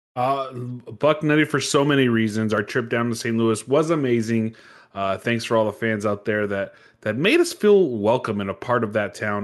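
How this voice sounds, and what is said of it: Slightly raspy voice. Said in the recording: “My voice is a little more raspy too, by the way. It's not good on the vocal cords.”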